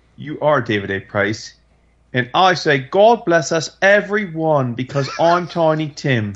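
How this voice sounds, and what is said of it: Bad British character voice. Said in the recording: “the most horrible, retarded British character impersonation ever.”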